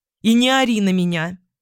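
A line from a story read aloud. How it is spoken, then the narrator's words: Exasperated bark. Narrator (Russian): рявкнула я в итоге, устав от неопределенности и его молчания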